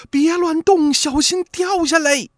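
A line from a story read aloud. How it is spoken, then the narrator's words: Urgent shout. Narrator (Chinese): 王子服赶紧喊说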